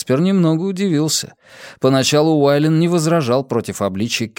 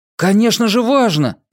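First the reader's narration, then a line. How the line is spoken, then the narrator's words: Angry exclamation. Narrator (Russian): сердито воскликнул Уайлен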